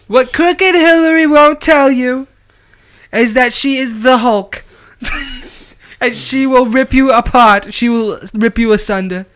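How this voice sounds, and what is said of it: Imitates another person's voice. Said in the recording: “My Trump impression's getting pretty good.”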